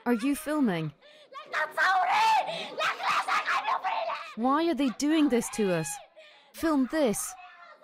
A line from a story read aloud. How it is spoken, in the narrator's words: A grief-stricken woman yells